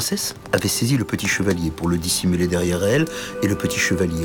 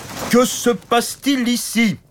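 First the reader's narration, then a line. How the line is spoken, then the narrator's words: Big brutish knight shouting. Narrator (French): cria le grand chevalier costaud et stupide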